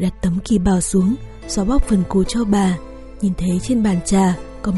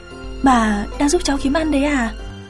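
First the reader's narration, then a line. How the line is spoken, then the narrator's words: Bursting laugh. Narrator (Vietnamese): Tôi liền bật cười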